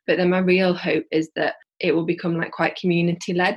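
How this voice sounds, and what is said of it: Yorkshire English accent. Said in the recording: “you can probably tell from my accent, like I'm from like Yorkshire”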